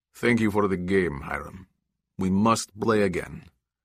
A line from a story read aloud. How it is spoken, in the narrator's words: In a thick accent, he said